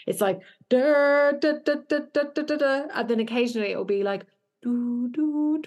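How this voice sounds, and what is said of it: Vocally imitates a music loop. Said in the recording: “I'm going to do a really terrible impression now ... I actually think you did a really good impression there”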